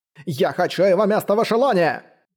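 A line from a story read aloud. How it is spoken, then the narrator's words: Shout. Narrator (Russian): прокричал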